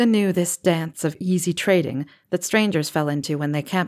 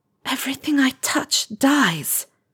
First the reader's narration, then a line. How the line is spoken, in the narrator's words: Helga hissed at Salazar quietly